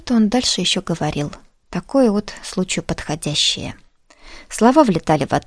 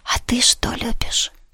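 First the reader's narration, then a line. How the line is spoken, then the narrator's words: Whisper. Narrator (Russian): Шепотом спросил Иван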